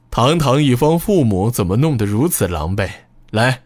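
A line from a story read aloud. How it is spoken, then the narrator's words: Laughing. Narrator (Chinese): 他继续笑着说道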